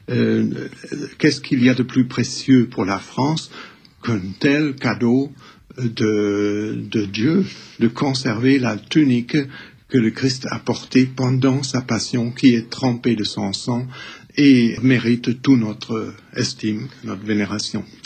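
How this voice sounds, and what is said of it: German accent speaking French. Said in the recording (French): “avec votre accent, parce que vous êtes le plus français des Allemands.”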